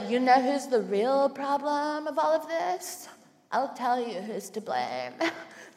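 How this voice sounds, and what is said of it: Impression of straight white women. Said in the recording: “like my impression of straight white women? I feel like it's pretty good. It actually just sounds like me.”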